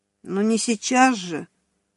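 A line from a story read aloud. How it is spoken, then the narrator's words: Sleepy woman's voice. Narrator (Russian): произнесла женщина сонным голосом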